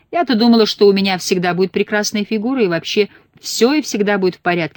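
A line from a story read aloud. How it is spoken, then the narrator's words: Shouted through bathroom door. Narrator (Russian): кричала она из-за двери своей ванны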